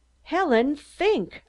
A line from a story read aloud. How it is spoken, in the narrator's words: I cried, fighting blindly against the terror that was choking me